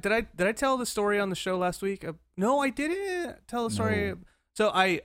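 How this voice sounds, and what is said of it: Usual voice. Nothing is said of it.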